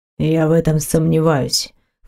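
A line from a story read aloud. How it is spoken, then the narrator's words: Man snorting. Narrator (Russian): фыркнул мужчина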